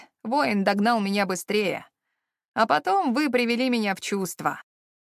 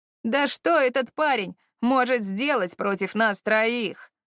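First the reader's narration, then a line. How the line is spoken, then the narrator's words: Scornful snort. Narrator (Russian): Эовин фыркнула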